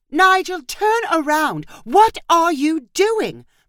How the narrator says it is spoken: Marissa shouted

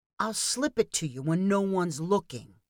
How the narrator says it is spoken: whispered Danny

